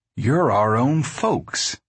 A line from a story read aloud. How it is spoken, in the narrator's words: Houston said sadly